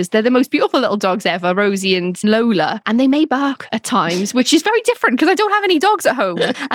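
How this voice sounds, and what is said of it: Thick Welsh accent. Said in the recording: “accent sounds any thicker ... It definitely has, because I'm here and, you know, I'm Welsh.”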